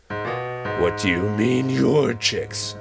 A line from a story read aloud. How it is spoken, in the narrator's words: Mama Lion snarled